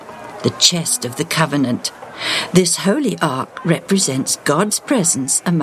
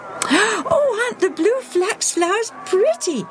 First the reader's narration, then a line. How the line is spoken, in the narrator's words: squealed with delight